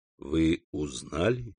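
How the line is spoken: Moaning. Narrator (Russian): Валентина застонала

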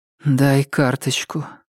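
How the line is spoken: Muffled voice. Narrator (Russian): глухо говорит

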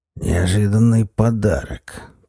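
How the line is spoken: Hoarse wheeze. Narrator (Russian): прохрипел Зуза

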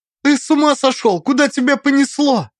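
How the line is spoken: Almost shouting. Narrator (Russian): почти закричала Алиса

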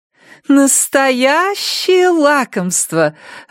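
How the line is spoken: Joyful. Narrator (Russian): радостно произнесла Хетер

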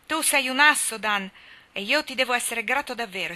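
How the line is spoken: Grateful exclamation. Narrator (Italian): esclamò Jack in uno slancio di gratitudine

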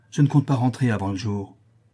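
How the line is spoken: Curt reply. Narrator (French): répliqua-t-elle sèchement

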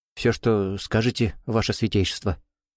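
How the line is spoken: Young man's trembling voice. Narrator (Russian): дрогнувшим голосом проговорил юноша

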